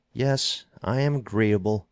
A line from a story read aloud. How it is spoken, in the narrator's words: said Stanton nervously and hastily